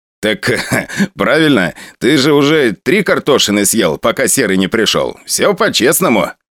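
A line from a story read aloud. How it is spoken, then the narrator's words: Laughing. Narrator (Russian): Посмеялся Валера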